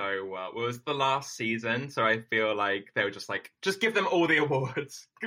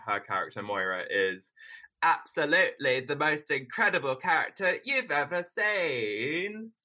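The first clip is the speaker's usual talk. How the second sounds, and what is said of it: Bad impression of Moira Rose. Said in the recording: “maybe the worst impression of Moira Rose”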